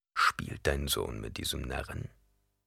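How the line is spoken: Quiet question. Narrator (German): fragte Stilgar leise

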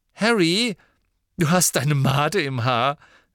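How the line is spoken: Cheerful. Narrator (German): sagte Ginny fröhlich

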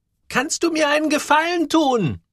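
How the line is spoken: Called out to him. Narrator (German): rief ihm zu

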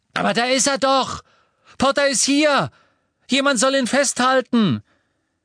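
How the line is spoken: Screamed. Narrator (German): als sie ihren schlotternden Arm erhob, erkannte er Pansy Parkinson, die schrie

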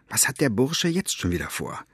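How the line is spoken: Whispering. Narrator (German): wisperte

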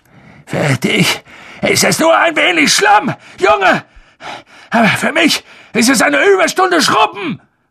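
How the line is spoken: Shouting. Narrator (German): schrie Filch

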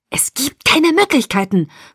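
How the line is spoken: Hissed. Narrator (German): fauchte Edward

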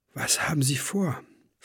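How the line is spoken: Whispering. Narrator (German): flüsterte Clara

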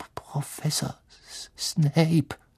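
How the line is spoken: Barely audible whisper. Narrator (German): sagte er kaum vernehmlich flüsternd

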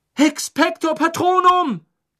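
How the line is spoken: Shouting. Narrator (German): schrie

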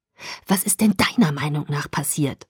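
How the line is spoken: Hissing. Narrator (German): fauchte

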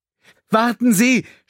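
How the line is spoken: Shouted. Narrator (German): schrie er

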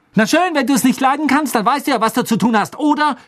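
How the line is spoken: Shouting. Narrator (German): schrie Hermine

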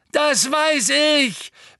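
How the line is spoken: Roared. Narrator (German): brüllte Neville

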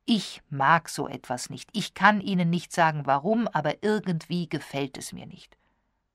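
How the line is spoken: Calm. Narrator (German): sagte er ruhig

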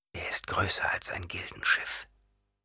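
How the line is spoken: Whisper. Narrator (German): flüsterte Paul

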